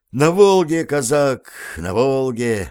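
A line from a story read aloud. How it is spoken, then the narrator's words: Sighed. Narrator (Russian): вздохнул сержант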